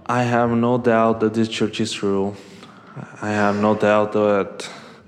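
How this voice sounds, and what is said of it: Mexican Spanish accent in English. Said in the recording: “I'm originally from Mexico, so sorry for my accent.”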